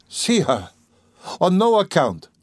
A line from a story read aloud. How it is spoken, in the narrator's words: cried Pulcheria Alexandrovna